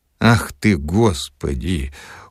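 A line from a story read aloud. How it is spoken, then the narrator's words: Dejected exclamation. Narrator (Russian): уныло воскликнул Филипп Филиппович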